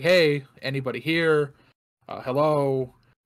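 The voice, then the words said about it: Yelling, calling out loudly. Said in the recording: “So I'm yelling,”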